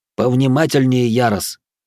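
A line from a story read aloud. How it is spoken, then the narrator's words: Inner self-scolding shout. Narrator (Russian): мысленно прикрикнул сам на себя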